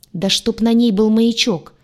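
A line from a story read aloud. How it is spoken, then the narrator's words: Growled. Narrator (Russian): рыкнул Урак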